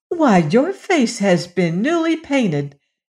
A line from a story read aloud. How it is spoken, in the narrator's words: exclaimed Dorothy